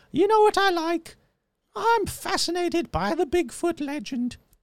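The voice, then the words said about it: Imitates an elderly British queen's voice. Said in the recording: “my bad Queen impression ... That's a spot-on Queen impression.”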